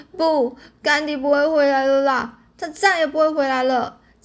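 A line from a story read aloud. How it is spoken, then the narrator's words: Crying. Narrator (Chinese): 黛西呢，哭着说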